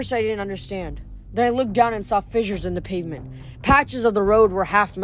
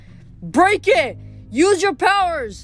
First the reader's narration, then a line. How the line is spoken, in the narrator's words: Michael yelled